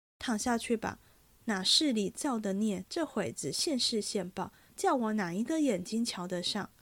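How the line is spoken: Scoffing laugh. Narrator (Chinese): 一面说，一面嗤的一声，又笑了

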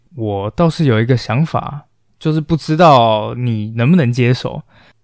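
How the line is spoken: Low conspiratorial voice. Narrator (Chinese): 荷姆斯此时脑筋忽然一转，压低了声音，对自己的朋友说道

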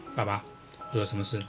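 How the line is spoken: Plain. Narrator (Chinese): 她说

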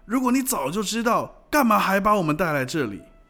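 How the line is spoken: Shouting. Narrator (Chinese): 有人大叫

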